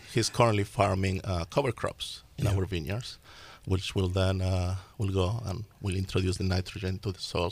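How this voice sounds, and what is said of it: Slight Spanish-speaker accent. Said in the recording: “there's a little accent in your voice... I was born in Argentina... I grew up in Spain. Therefore, the accent you may notice.”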